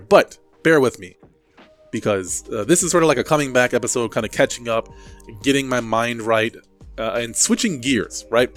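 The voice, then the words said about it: Congested, stuffy-nosed voice with sniffles. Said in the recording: “Sorry if you hear any sniffles or I sound a little weird. My nose is a little bit stuffed up, so it's going to be a little bit hard to talk here and there.”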